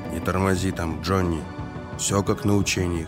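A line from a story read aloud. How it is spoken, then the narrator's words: Whisper. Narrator (Russian): шепнул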